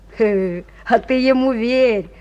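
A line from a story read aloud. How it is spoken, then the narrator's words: Booming drone. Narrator (Russian): прогудел другой боец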